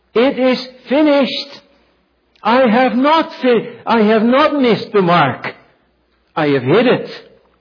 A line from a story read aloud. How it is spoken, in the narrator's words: He shouts